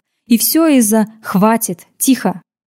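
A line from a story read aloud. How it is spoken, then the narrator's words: Cold interruption. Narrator (Russian): Холодно оборвал соратницу Риката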